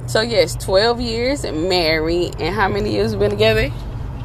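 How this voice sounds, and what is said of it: Strained, unwell-sounding voice. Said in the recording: “excuse my voice. I'm definitely not at 100%”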